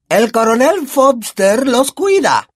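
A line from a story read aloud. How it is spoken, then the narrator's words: Booming thunderous voice. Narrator (Spanish): dijo tía Marge con voz de trueno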